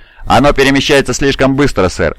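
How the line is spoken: Plain. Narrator (Russian): ответил Ван Аунгер

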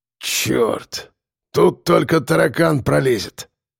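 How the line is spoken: Breathless exhale. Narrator (Russian): Выдохнул он

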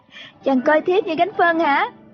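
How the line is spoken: Giggling. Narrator (Vietnamese): Triệu Mẫn cười khúc khích

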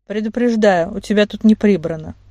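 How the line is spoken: Plain. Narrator (Russian): сказал Ишер

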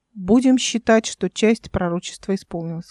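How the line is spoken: Plain. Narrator (Russian): сказал Эл

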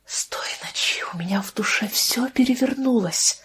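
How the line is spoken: Strained whisper. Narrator (Russian): прошептал доктор, с видимым трудом выдавливая из себя слова

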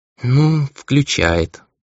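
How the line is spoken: Tired boy explaining. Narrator (Russian): устало пояснил мальчик

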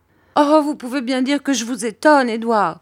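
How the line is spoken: Exclaiming. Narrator (French): s'écria ma mère

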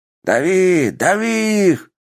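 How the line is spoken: Strained, anguished shouting. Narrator (Russian): кричал кто-то с надрывом

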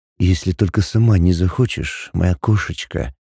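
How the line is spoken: Smirking close whisper. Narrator (Russian): Максим лишь усмехнулся и прошептал у самого моего уха

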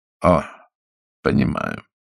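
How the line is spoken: Dry. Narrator (Russian): сухо сказал Майкл

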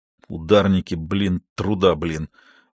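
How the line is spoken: Orderly muttering. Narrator (Russian): пробурчал один из санитаров

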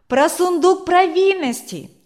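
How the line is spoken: Children shouting. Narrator (Russian): закричали дети

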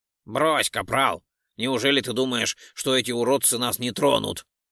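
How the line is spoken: Scoffing then shouting. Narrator (Russian): хмыкнул Ролдон и прокричал

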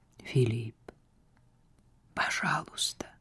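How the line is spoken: Strained, forced out. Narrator (Russian): Сара с трудом сумела выдавить эти слова

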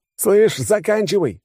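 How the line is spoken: Yelling. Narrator (Russian): заорал

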